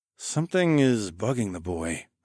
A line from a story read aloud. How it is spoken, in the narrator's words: I murmured absently